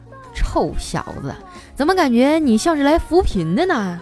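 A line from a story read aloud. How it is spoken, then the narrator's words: Old man laughing. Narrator (Chinese): 这老丈人笑着说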